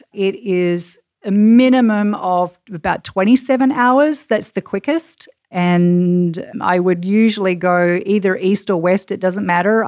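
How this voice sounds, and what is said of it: Australian accent. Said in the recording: “you have a fabulous Australian accent”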